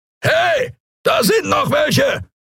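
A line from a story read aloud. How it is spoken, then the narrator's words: Roaring creature voice. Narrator (German): brüllte eine Skria-Stimme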